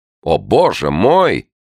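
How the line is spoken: Exclamation. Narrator (Russian): воскликнул кто-то

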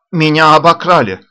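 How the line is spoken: Shouted. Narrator (Russian): крикнул Андреев

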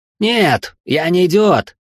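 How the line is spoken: Shouting in someone's face. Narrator (Russian): Веня в выступлении кричал почти в лицо Гордею

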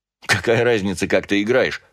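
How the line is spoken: Laughing. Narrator (Russian): рассмеялся Георг

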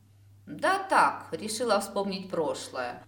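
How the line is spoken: Gloomy. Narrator (Russian): мрачно отозвалась я

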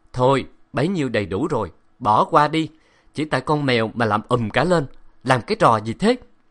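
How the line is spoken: Loud laughing speech. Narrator (Vietnamese): Hạo Hạo cười to

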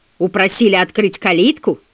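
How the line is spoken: Growled. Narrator (Russian): прорычал он

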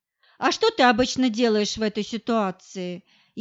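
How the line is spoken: Snide smirking question. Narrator (Russian): Ехидно ухмыляясь, спросил

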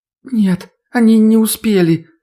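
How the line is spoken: Answering through sobs. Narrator (Russian): сквозь всхлипывание ответила Ольга

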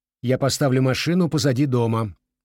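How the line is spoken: Sharp. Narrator (Russian): резко сказал он

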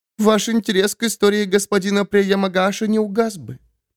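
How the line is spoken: Speaking through hidden tears. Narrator (Russian): проговорила Май сквозь слезы, которые не показывала

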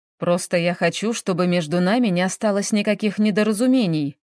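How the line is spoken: Plain. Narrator (Russian): ответил Соломенцев

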